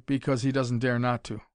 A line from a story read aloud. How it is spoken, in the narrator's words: said Tommy coldly